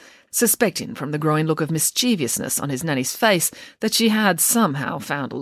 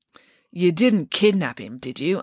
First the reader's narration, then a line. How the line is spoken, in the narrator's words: asked Derek sternly